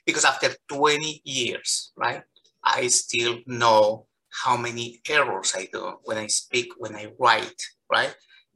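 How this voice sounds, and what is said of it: Non-native English accent. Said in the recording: “I was so embarrassed about my accent ... I'm so proud of my accent ... My accent means that I speak two languages”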